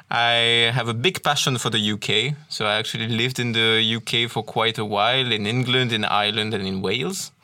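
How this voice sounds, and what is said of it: French accent in English. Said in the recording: “as you can probably hear from my accent, uh, I'm a French speaker originally”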